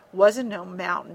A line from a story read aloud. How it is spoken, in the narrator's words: he grumbled